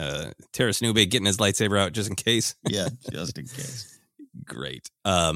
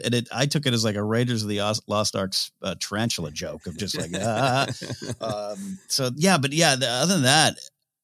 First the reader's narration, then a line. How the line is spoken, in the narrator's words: I laughed